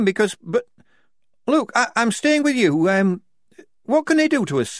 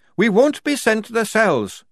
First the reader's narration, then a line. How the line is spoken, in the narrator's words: Tonka shouted